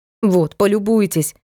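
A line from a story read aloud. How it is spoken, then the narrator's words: Angry. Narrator (Russian): сердито говорит Метельская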